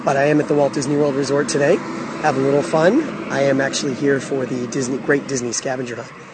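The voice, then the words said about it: Hoarse voice from a cold. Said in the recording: “with a little bit of cold ... my voice is a little bit shot right now”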